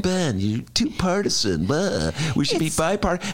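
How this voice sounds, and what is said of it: Imitates another person's voice. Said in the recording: “Who's that an impression of?”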